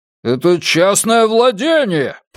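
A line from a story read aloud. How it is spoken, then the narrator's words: Shrill shout. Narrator (Russian): пронзительно закричал мужчина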